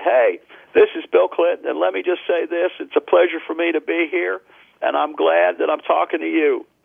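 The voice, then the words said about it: Bill Clinton impression. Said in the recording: “your Bill Clinton impersonation”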